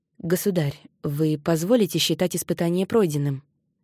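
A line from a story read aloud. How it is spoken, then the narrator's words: Plain. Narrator (Russian): спросил он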